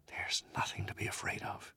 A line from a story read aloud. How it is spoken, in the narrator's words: he whispered